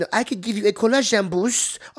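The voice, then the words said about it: Attempted fake French accent. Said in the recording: “She's got like this like French accent. I can't do a French accent, but she has this like French accent”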